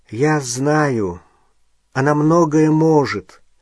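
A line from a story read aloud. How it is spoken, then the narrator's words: Tired. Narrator (Russian): устало сказал Гарри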